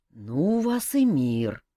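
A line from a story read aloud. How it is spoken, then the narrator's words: Snort, king. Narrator (Russian): хмыкнул король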